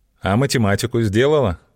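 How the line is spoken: Plain. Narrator (Russian): спросил он

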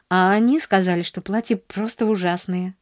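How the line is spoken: Sighing. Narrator (Russian): вздохнула она

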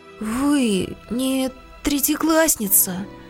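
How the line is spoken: Timid whisper. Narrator (Russian): прошептал Петя робко

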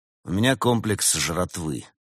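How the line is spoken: Glum explanation. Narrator (Russian): уныло объяснил Константин

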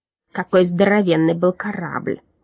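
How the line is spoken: Muttering. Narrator (Russian): бормотал Парацелиус

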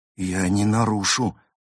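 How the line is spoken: Trembling voice. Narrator (Russian): дрожащим голосом пообещал водитель

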